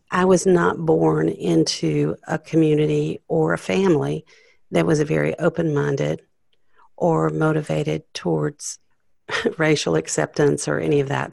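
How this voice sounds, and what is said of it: Southern American accent. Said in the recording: “you probably can tell I have a Southern accent.”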